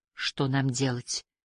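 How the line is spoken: Mumbled. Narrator (Russian): пробормотала Лейси

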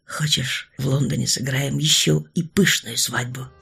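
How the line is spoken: Quiet offer. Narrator (Russian): тихо предложил он

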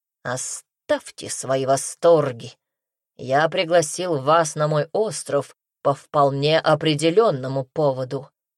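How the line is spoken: Irritated, through gritted teeth. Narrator (Russian): Раздраженно процедил патриарх, явно не понимая и не принимая радости гостя

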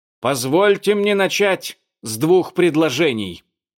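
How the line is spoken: Pompous shout, old man. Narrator (Russian): прокричал с напыщенным видом старый злыдень

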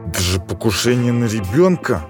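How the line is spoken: Through gritted teeth. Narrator (Russian): сквозь зубы процедил Ланзо

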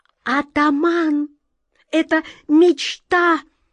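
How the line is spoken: Interrupting shriek. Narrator (Russian): Не дав ей договорить, взвизгнула черная кошка

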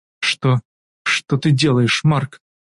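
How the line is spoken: Trembling question. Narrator (Russian): Дрожащим голосом спрашивает Эмилия

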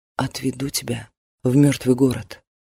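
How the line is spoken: Whisper. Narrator (Russian): приблизив рот к уху, и шепнул

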